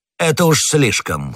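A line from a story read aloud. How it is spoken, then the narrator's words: Shouting. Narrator (Russian): крикнул Бекингем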